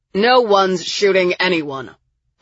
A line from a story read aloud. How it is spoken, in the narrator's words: my father said sternly, like an adult finally tiring of the children's bickering